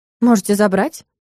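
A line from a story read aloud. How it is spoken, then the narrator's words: Calm retort. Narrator (Russian): спокойно парировала я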